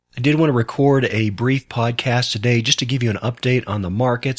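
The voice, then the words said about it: Sick, congested-sounding voice. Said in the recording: “as you can probably tell by my voice, I am fighting off a cold and probably bronchitis”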